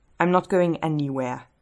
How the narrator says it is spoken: Derek says

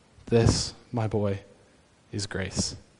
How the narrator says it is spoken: The principal softly says

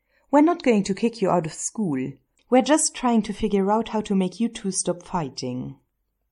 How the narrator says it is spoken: Miss Blake said softly

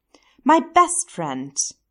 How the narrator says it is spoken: Stiles exclaimed

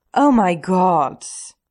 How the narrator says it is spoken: Stiles hisses and then sighs theatrically

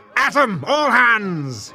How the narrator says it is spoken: he roared

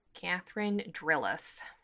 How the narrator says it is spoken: she says quietly

